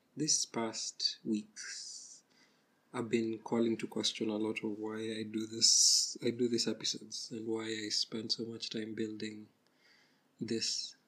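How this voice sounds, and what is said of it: Husky, hoarse voice. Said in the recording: “please don't mind my voice, I have a cold, recovering from a cold, I don't know, my voice is still husky”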